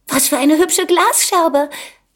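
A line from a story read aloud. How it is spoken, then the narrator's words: Little girl calling out. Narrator (German): rief die Kleine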